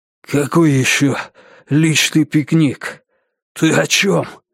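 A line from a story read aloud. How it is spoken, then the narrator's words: Unexpectedly hoarse voice. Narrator (Russian): спросил он неожиданно хриплым голосом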